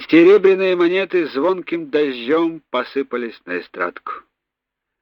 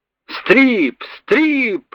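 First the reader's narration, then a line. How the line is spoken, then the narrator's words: Sailors yelling together. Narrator (Russian): заорали матросы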